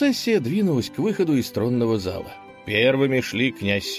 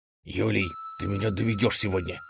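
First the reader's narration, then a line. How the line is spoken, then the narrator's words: Hissing ruler. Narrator (Russian): прошипел в ответ правитель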